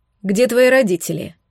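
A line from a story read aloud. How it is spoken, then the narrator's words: Stern question. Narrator (Russian): строго спросила я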